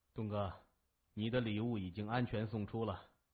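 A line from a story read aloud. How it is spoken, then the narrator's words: Sinister, smiling. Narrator (Chinese): 戴着墨镜的青年汉子阴阴一笑，拿出电话说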